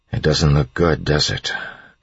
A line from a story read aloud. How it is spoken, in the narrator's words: Elend said quietly